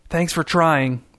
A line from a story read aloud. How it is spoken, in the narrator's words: whispered